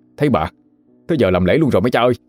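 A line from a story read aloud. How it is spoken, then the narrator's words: Startled cry. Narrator (Vietnamese): Lan giật mình la lên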